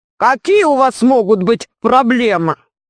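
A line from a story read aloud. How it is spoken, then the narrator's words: Deep bass voice. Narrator (Russian): Сказал он глубоким басом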